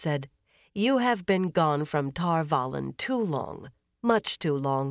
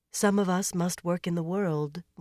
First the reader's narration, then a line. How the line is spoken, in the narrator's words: Moiraine said gently